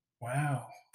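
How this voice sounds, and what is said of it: Owen Wilson impression. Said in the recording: “my Owen Wilson impression ... It's a one word impression ... That's how you do an Owen impression.”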